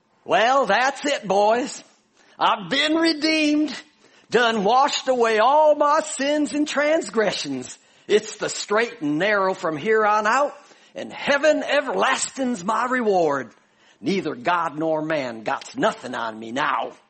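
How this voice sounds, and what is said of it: Put-on Southern US accent. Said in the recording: “my best Southern imitation. ... I'm from Chicago, so this is difficult.”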